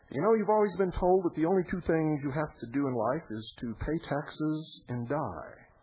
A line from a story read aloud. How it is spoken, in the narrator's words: One exclaimed